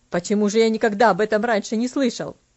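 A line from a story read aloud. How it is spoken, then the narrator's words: Slightly irritated question. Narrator (Russian): немного раздраженно спросил он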